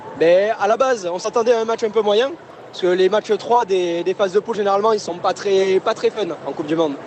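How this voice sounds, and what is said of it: Southern French Toulouse accent. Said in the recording (French): “on va reconnaître votre accent, vous êtes de Toulouse. ... un peu l'accent du Sud.”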